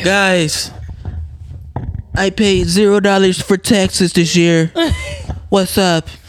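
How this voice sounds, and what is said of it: Imitates another person's voice. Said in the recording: “That was a great impression, by the way... God damn, that's great.”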